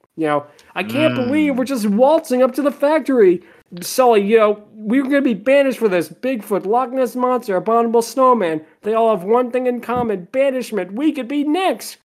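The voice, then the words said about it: Poor cartoon character impression. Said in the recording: “my terrible Mike Wazowski impression ... I am not a good impressionist, at least with Mike Wazowski”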